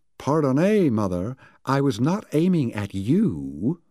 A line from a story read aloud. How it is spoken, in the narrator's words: Lowe's voice came from the house haughtily